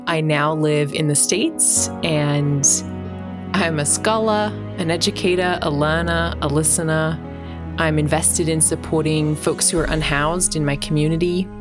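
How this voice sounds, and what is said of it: Australian accent. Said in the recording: “My accent tells a little bit of my story. I'm from Australia.”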